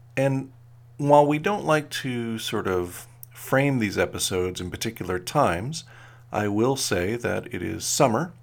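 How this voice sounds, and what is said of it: Deeper, slower morning voice. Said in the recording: “my voice is a little deeper or I feel sound a little slower”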